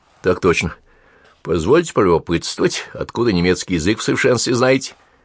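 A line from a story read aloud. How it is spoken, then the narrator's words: Burring, swallowed letter. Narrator (Russian): говорил картаве, почти проглатывал букву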